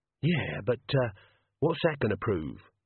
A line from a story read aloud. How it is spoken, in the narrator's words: Death sighed